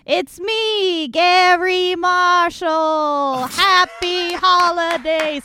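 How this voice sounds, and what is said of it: Gary Marshall impression, Kennedy-like. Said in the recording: “a Gary Marshall impression ... It's kind of Kennedy. It's kind of Gary Marshall.”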